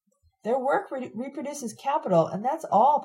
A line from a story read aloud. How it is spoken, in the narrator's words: Pat shouts